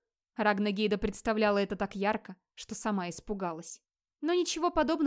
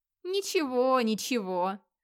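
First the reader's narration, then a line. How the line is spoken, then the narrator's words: Giggling. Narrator (Russian): Ормтруд хихикнула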